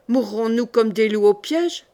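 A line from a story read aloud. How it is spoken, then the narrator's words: Growled. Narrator (French): gronda Irquoir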